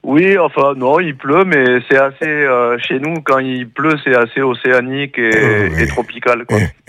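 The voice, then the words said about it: Noticeable regional French accent. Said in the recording (French): “vous avez déjà compris qu'il n'était pas de chez nous. On entend son accent.”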